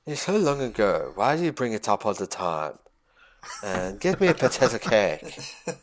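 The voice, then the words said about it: Put-on Melbourne accent. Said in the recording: “That's the Melbourne accent, I believe.”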